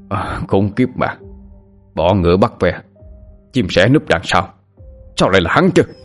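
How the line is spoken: Angry growl. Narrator (Vietnamese): Người đàn ông vận đồ đen gầm gừ nói

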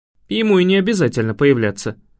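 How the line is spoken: Snort. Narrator (Russian): фыркнул Рион

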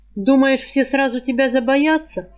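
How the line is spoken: Wry snort. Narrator (Russian): хмыкнул Саврянин

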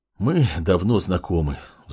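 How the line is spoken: Sighing. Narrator (Russian): вздохнула Кимура

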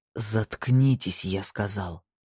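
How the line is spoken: Hissing man. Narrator (Russian): прошипел мужчина

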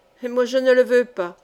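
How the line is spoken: Cold retort. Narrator (French): riposta froidement le joli sabotier

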